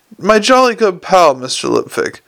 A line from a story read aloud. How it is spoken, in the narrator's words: shouted the clown